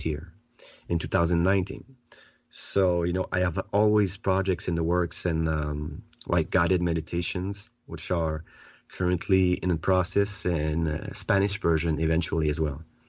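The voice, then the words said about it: French accent. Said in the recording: “your beautiful French accent”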